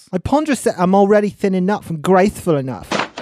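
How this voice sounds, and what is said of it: Put-on accent. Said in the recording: “quit with the accent”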